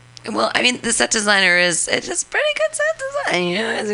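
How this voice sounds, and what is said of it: Usual voice. Nothing is said of it.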